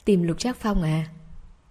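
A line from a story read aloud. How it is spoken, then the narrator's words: Smiling. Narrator (Vietnamese): Hàn Tĩnh mỉm cười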